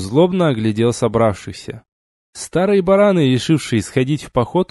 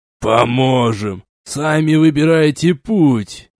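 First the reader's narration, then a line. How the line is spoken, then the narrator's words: Displeased grumbling. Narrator (Russian): недовольно проворчал Рынг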